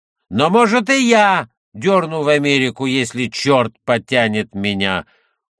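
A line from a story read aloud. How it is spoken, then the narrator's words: Shouting again. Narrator (Russian): снова крикнул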